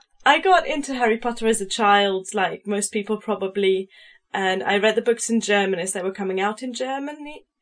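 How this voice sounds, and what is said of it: Mixed German and British accent. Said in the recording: “your accent is definitely a mix ... Her accent is definitely more predominantly German. So I could hear a little bit of that in you. But I was like, but it's not quite the same”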